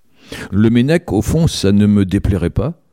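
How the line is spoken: Plain reply. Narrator (French): répondit Mona

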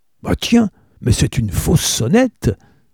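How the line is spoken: Exclaiming. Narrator (French): s'exclama-t-il

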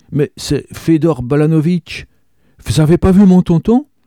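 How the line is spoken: Exclaiming. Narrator (French): s'écria Zazie

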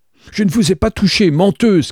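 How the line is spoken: Furious shout. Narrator (French): cria-t-elle, les oreilles rouges de rage

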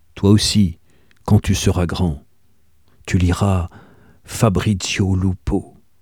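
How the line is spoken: Grave deep voice. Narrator (French): Perrin de Lalla lui avait dit d'une voix grave

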